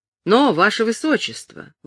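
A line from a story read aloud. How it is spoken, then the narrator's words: Exclaimed. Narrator (Russian): воскликнул сэр Томас Фелтон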